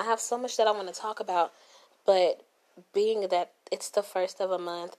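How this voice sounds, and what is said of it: Tired, winded, slightly weird voice. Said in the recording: “my voice sounds a little weird, I have had bronchitis for the past 2 weeks ... I'm winded. Like, I sound tired. I sound like I just ran up a flight of steps”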